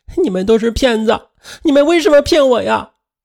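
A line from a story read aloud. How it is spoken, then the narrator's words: Crying out. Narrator (Chinese): 身后的女儿在哭喊道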